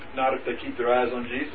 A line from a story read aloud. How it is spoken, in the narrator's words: he chuckled